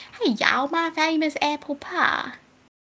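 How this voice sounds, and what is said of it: Put-on Southern US accent. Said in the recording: “my southern accent”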